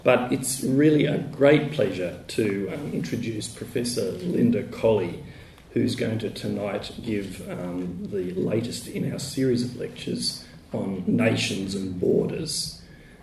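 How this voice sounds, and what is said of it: Hoarse, weakened voice. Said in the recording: “I've sort of lost my voice, so if you can't hear me, do please say.”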